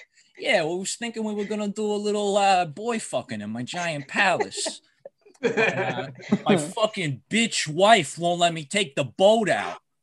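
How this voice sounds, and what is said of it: Put-on New York Italian-American accent. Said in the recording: “Really good, that's a really good Sopranos accent ... That Guido with the Paisan voice”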